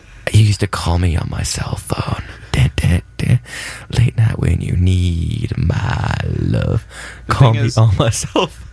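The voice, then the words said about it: Whispered ASMR-style singing. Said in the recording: “Drake ASMR ... It's mostly whispering”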